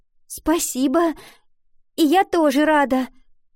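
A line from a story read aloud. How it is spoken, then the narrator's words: Timid girl's reply. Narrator (Russian): робко ответила девочка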